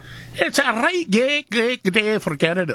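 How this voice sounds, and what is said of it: Poor put-on Scottish accent. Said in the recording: “I love the Scottish accent ... That's not very good.”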